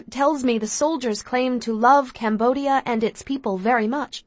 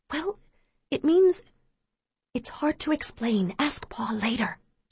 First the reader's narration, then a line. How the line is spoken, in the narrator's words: she whispers